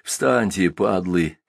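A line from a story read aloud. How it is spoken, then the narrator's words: Hoarse scolding. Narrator (Russian): хрипло выговаривал он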